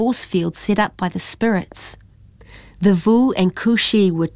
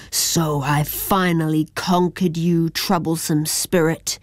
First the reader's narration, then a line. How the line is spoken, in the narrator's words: growled Kushi